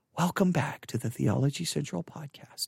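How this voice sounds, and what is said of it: Soft, quiet radio-announcer voice. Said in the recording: “I won't try to come back in at my very loud screaming at you voice. I'll come in just a nice, quiet NPR voice.”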